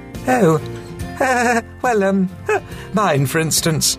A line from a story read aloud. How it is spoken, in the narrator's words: said Mavis, with a feeble laugh